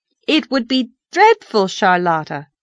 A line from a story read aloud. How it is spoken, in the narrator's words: said Anne firmly